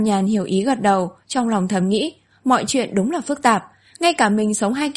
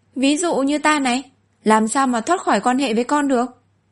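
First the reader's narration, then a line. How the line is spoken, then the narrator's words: Smiling. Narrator (Vietnamese): Phí Giới mỉm cười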